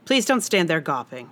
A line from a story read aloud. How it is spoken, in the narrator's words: she said